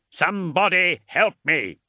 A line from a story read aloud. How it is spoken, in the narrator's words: he called against the howling engine noise